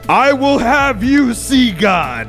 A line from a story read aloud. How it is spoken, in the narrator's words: he yells out in an angry, vengeful yell, and he says